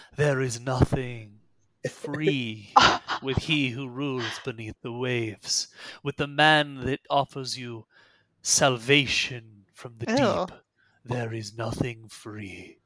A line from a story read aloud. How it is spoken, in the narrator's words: Bellick mutters